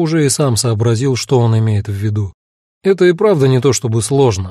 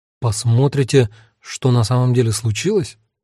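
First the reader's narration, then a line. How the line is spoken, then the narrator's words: Confused question. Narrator (Russian): растерянно переспросил я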